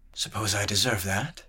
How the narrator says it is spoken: murmured

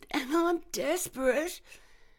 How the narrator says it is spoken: she whimpered

